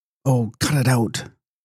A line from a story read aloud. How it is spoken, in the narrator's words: cried Lavinia